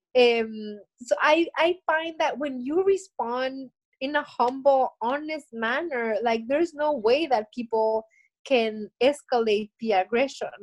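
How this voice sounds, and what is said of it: Spanish-accented English. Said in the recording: “I'm so sorry about my accent ... I try to learn better English ... my Spanish worsens”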